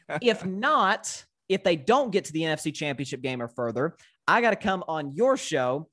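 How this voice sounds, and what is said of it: Slight Southern drawl. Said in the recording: “I'm from Tennessee. So I have that slight little Southern draw.”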